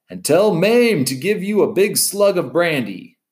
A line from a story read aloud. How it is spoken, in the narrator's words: Fred yelled after him